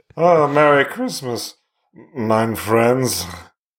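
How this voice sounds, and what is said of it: Put-on German accent. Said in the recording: “Dean Martin doing a German accent”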